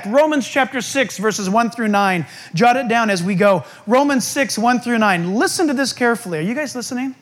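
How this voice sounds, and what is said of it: Yelling excitedly. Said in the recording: “I know I'm yelling, but I'm so excited.”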